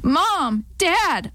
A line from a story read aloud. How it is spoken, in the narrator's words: I yelled